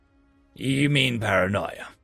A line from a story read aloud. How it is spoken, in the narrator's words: I grunted